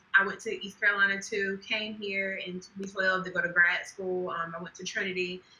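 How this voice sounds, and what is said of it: North Carolina Southern accent. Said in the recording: “I'm from North Carolina, hence the accent. ... I always say that my accent is gone. And then people are like, where are you from?”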